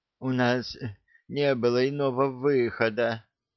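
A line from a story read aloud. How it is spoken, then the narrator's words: Barely audible rustle. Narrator (Russian): едва слышно прошелестел мэтр Альви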